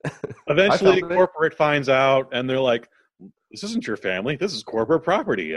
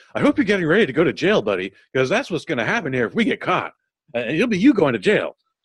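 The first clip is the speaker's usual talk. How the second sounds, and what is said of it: Imitates another person's voice. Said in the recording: “That's my Thomas Middleditch impersonation.”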